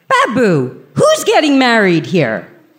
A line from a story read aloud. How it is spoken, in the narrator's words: me yelling across the room